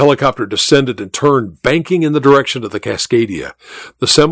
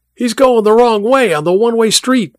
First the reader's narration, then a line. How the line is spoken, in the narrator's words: Mike shouted, both into the radio and at the others in the car